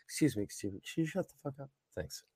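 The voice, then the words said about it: Overly polite customer service voice. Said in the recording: “It's my best customer service voice right there.”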